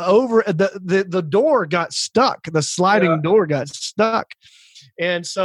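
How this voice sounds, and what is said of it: Usual voice. Nothing is said of it.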